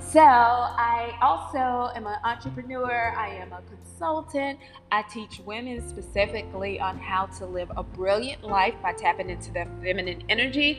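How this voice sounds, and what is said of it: Mild Southern US accent. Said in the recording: “I'm from North Carolina, if you can't already tell with the Southern vernacular and accent... my accent is not as thick as some people... it is a Southern accent”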